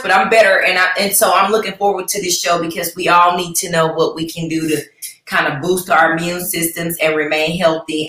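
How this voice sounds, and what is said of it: Slightly hoarse voice. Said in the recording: “I had lost my voice and I was just hoarse. I'm a little bit hoarse”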